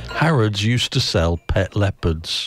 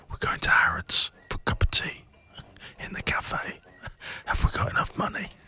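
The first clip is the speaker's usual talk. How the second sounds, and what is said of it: Gentle whisper. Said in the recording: “whisper ... gently”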